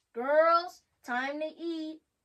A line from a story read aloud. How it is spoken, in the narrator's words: Mom yelled up the stairs